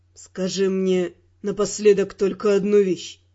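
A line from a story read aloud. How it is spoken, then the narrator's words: Cold. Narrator (Russian): холодно произнес Раймонд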